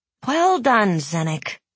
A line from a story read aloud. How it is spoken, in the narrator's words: she sighed